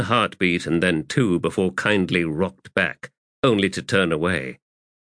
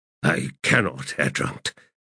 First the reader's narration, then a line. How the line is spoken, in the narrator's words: kindly replied in a shaken voice